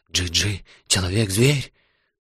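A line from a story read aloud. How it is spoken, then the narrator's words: Frightened whisper. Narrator (Russian): Джала стал испуганно шептать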